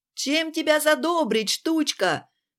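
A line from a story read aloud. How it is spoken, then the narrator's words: Shout. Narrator (Russian): крикнул все тот же любитель яиц мамонта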